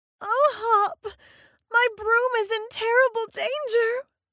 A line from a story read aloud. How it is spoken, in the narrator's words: sobbed the witch